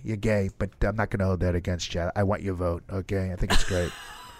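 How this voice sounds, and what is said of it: Deep voice imitating another person. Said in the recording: “my God, what a deep voice ... Trump is actually our guest today”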